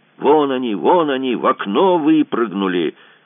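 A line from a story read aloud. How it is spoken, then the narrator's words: Wild yelling. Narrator (Russian): Неизвестный доброход дико орал с гостиничного крыльца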